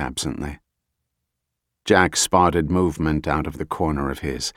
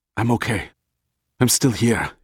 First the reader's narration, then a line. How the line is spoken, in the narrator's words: he said, panting